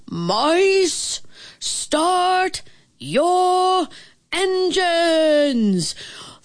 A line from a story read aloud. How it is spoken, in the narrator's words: a big, booming voice announced